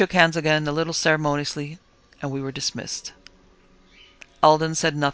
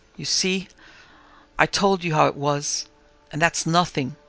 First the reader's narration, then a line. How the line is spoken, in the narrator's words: weakly, murmuring